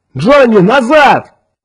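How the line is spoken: Shouted. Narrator (Russian): крикнул Кертис

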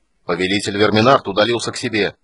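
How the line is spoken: Angry shout. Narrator (Russian): крикнул Пирос, разгневанный тем, что кто-то посмел прервать его размышления

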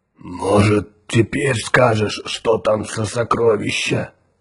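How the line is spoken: Giant's hoarse question. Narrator (Russian): хрипло спросил гигант Тикар

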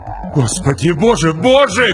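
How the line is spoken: Shouted. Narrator (Russian): крикнул Вагнер

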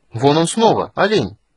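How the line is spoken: Sudden exclamation. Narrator (Russian): неожиданно воскликнул Стурм

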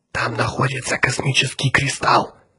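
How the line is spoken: Whispered. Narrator (Russian): прошептал он Отто и Грегу

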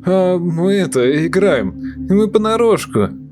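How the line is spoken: Uncertain mumbling. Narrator (Russian): неуверенно замямлил

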